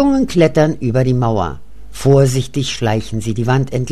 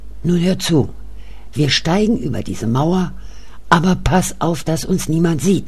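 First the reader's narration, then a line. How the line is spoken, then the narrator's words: Whispered. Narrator (German): Kurt flüstert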